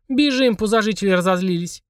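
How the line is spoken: Exclaiming. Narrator (Russian): воскликнула Полина

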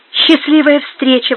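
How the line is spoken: Exclamation. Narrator (Russian): воскликнула она

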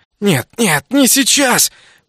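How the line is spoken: Hoarse delirious mutter. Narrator (Russian): Продолжал я хрипло бормотать в полубреду

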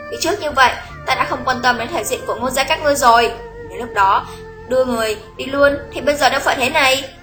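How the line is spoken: Resentful, angry. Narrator (Vietnamese): Lý Quỳnh oán hận, tức giận nói

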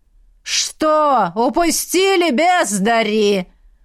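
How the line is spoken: Old man yelling close by. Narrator (Russian): Орал дед Бонавентуры почти над самым его ухом

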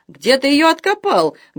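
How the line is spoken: Cackling yell. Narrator (Russian): гагача заорал Гюгет

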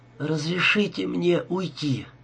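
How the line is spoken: Heavy exhale. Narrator (Russian): тяжело выдохнула она

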